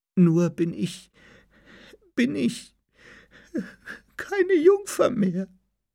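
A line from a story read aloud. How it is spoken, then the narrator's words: Sobbing stammer. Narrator (German): brach sie in Schluchzen aus und stammelte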